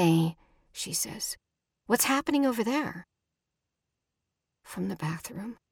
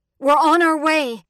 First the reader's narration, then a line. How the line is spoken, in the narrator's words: Alma shouts